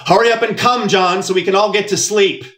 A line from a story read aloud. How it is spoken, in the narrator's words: my mother shouted through the thin wall